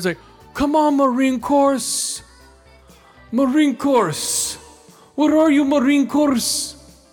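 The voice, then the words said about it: Exaggerated thick Mexican accent. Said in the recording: “they have the thickest Mexican accent ... they're just hamming the shit up so bad, their accent.”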